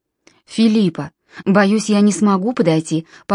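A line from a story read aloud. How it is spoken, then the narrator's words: Calm speech. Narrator (Russian): по-прежнему спокойно проговорил Нимрод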